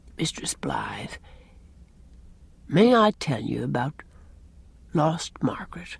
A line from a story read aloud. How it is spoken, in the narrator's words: Captain Jim said very softly